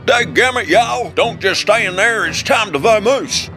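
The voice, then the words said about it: Put-on Southern US drawl. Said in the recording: “my new southern drawl”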